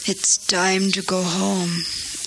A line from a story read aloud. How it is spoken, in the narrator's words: the old man said wearily